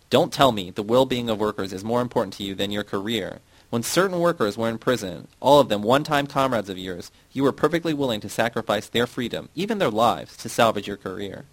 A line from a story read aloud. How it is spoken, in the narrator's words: Yasna was shouting at Glavny